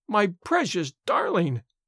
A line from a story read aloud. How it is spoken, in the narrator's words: wailed the mother